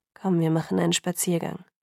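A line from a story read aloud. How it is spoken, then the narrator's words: Flat impassive suggestion. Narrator (German): schlug er mit unbewegter Stimme vor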